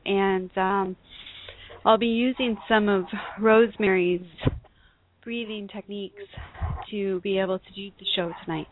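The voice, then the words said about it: Breathless speaking voice. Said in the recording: “I just want to explain the breathlessness”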